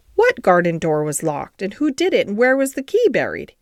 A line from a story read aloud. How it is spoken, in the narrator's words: he exclaimed, as if he were suddenly very much interested